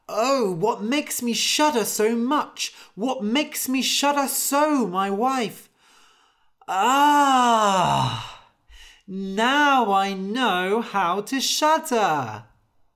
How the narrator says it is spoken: Anders woke up and cried

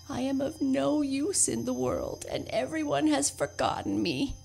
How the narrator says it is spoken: he moaned

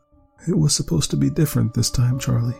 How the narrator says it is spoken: Rebecca mournfully whispered

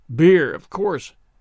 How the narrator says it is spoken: grumbled Jemima

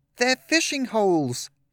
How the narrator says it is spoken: he shouted

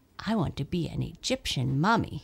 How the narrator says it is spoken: he said

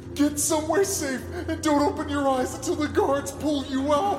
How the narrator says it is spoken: Sarge shouting

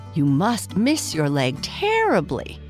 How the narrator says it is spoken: several of the company cried

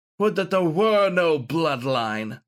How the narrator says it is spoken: snarled Galahad

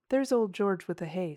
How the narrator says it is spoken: said James

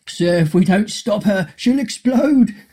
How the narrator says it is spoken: shouted Mr

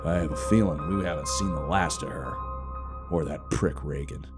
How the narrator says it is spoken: scoffed

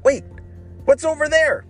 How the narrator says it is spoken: shouted Ryan

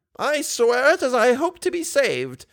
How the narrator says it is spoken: exclaimed the old woman, who this time seemed to be incensed

